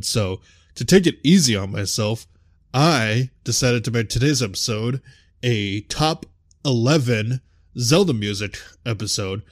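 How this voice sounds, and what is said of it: Strained, sore-throated voice. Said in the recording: “I don't know if you could tell by my voice, but my throat, my throat is just not doing good.”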